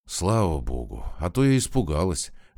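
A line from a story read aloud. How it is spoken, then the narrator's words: Relieved exhale. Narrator (Russian): облегченно выдохнула Наташа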